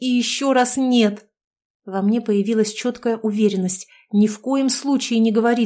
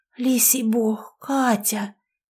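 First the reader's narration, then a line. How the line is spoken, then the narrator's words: Discreet half-hiss. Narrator (Russian): полушипела тетя, стараясь не привлекать внимания посетителей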